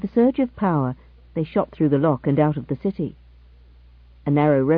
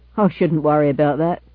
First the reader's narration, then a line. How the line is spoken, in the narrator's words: laughed the driver